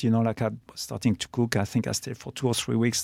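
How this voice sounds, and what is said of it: Strong foreign accent in English. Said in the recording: “You can hear my accent ... you have strong accents”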